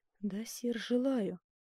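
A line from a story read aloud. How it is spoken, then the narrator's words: Whisper. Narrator (Russian): прошептала герцогиня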